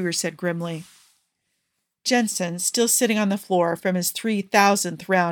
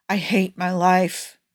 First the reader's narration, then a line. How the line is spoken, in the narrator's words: he moaned